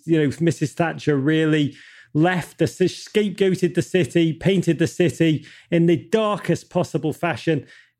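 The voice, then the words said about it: English Liverpool accent. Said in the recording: “my accent makes me sound like I live and die with the English national team ... I grew up in Liverpool”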